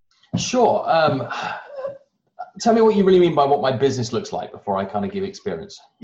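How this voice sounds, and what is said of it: Non-American accent. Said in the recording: “You obviously have a much, much sexier accent than I do. So you're not from here.”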